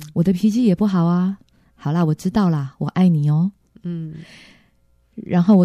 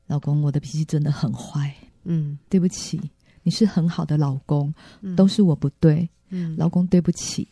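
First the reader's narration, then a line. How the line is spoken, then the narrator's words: Choked, sobbing. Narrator (Chinese): 我就哽咽的说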